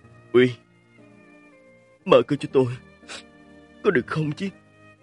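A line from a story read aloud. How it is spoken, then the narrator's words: Choked-up voice. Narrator (Vietnamese): thanh âm nghẹn ngào của Mạch Quái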